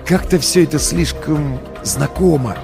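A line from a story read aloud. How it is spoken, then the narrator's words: Whisper. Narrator (Russian): шепнул я стоявшему за мной Федору Ильичу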